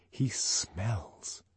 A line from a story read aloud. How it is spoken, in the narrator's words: she lowered her voice